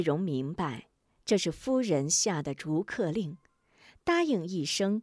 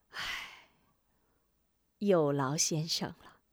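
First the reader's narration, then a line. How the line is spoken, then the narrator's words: Listless sigh. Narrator (Chinese): 夫人早已无精打采，叹口气道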